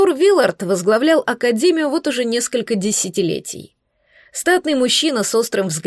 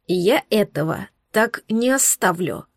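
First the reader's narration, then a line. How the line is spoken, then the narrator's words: Hateful hiss. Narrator (Russian): прошипел Савелиус, с ненавистью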